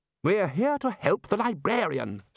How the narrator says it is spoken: snapped Ridcully

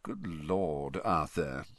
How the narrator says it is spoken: he said softly

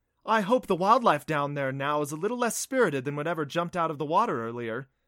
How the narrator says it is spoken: Dina laughed

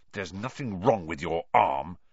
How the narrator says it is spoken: he hissed at Malfoy

